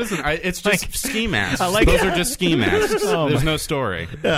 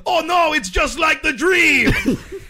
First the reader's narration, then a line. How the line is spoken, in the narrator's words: screaming